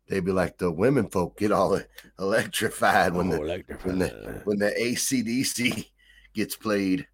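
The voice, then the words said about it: Deep Southern villain accent. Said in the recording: “I don't know why I'm making them talk that way ... They had a villain accent ... I made them like deep Southern villains”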